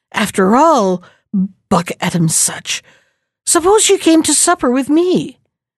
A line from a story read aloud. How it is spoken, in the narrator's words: the prince suddenly exclaimed